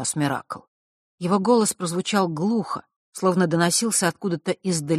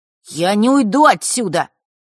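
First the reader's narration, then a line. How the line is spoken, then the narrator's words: Suddenly loud declaration. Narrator (Russian): неожиданно громко заявил он Василисе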